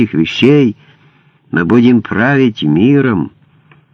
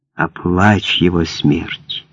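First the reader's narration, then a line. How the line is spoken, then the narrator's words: Whispering. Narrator (Russian): прошептал Добби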